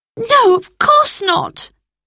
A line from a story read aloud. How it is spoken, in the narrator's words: cried Roberta